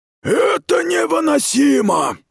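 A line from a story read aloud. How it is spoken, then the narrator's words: Growl. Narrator (Russian): прорычала Радай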